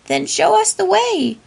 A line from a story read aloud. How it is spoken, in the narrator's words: Raggedy Ann cried